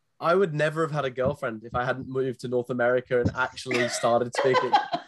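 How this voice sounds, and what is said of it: English accent. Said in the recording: “it's got an English founder, two English founders, actually... I know you North Americans love that accent.”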